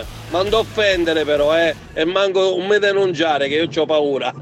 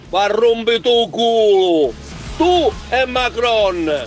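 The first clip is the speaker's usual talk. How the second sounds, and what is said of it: Switches into Sicilian dialect. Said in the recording (Italian): “dico in siciliano”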